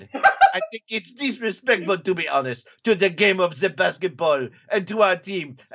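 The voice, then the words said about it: Put-on French accent. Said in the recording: “now that I hear it in a French accent”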